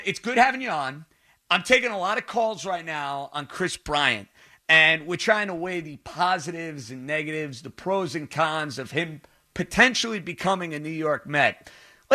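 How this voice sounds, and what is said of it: New York accent. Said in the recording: “There's the New York accent, and then there's the ... accent.”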